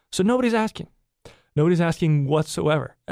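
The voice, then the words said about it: Sarcastic tone. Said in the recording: “my voice is getting a little sarcastic”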